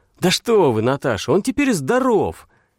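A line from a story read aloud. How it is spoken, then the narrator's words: Loud and brisk. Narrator (Russian): Громко и бодро сказал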